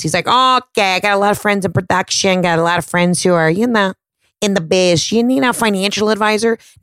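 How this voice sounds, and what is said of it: Put-on Brooklyn-style accent. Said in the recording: “I don't know why I'm giving him this accent. He's not from like Brooklyn. ... I'm going to stick with this accent”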